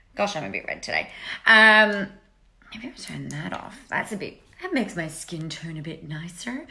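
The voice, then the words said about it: Put-on accent. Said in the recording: “I don't know why I'm doing an accent. It's weird.”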